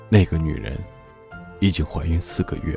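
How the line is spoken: Drunken mumbling. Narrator (Chinese): 罗格喝醉后喃喃自语

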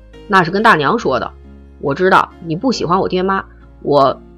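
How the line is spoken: Hesitant stammering. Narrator (Chinese): 他嗫嚅，不知道该怎么说

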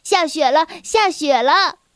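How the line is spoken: Excited shouting. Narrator (Chinese): 安迪大叫着

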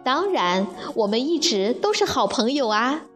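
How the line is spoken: Laughing. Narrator (Chinese): 沙地笑着说

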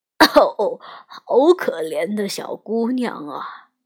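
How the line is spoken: Old woman sighing. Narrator (Chinese): 旁边的老太太突然叹了口气

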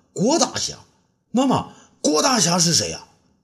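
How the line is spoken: Hurried question. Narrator (Chinese): 东方谢…急忙问道

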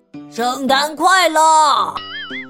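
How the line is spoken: Loud. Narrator (Chinese): 他大声说着

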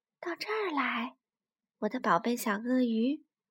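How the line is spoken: Gentle smiling whisper. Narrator (Chinese): 脸上露出一个巨大的微笑，然后用一种非常温柔的，就像小草在说悄悄话的声音，轻声地说

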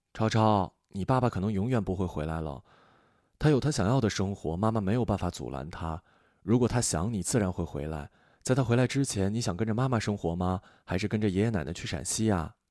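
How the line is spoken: Soft, gentle. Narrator (Chinese): 轻声道

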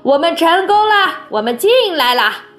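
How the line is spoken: Calling out. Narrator (Chinese): 王可先生叫道

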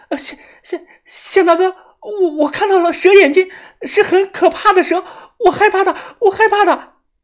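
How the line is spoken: Frightened, trembling voice. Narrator (Chinese): 蛇女浑身发抖不止，她声音发颤了

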